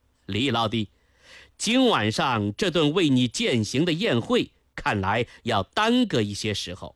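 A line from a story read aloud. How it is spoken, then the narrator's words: Smiling. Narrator (Chinese): 殷正茂 朝李岩一笑 说道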